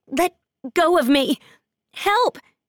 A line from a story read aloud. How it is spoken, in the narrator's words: she shouts